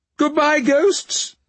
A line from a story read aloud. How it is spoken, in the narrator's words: she called out cheerfully from the front door